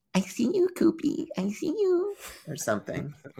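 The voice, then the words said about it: Girlish put-on voice. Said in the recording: “Why do you sound like a girl?”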